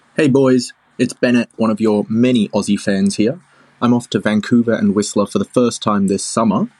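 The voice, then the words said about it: Australian accent. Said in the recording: “did that sound like a fake Australian accent? ... No, I think it was real.”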